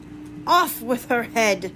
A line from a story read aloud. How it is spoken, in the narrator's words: cried the Queen